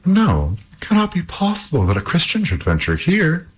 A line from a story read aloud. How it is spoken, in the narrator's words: cried the princess